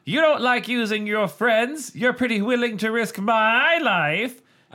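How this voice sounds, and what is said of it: Put-on character voice. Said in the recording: “I think we're doing the same Marco voices ... that's basically the voice we do for Mark”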